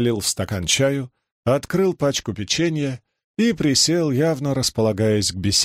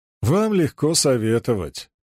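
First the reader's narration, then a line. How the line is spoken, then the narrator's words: Grumbling. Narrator (Russian): проворчал я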